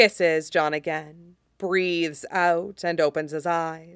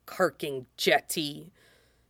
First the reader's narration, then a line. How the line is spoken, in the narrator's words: Jango mutters, but there's no heat to it, just fondness